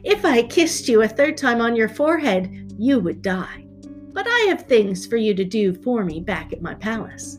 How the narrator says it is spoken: She laughed and said

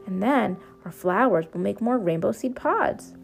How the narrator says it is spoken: exclaimed Pip

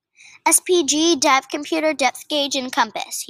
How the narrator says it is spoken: he shouted

